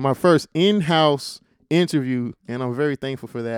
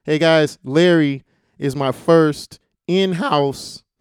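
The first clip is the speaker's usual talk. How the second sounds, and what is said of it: Voice cracks mid-sentence. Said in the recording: “my voice cracked.”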